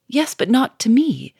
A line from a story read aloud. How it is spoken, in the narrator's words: cried Sonya, wringing her hands